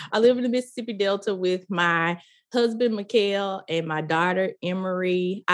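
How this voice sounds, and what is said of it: Deep Southern American accent. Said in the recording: “my deep Southern accent. If not, keep listening, you'll hear it.”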